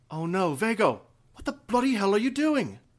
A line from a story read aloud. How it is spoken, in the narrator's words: She stopped next to Isra and gasped